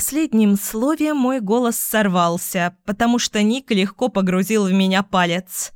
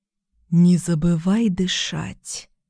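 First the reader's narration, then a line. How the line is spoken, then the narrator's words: Soft whisper. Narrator (Russian): напомнил он мягким шепотом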